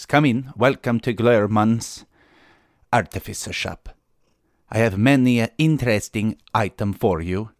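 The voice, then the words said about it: Attempted Scandinavian accent, slipping to Arabian. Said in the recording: “my accent slipped again into kind of the guy at the beginning of Aladdin ... I was trying to go for like a Scandinavian thing”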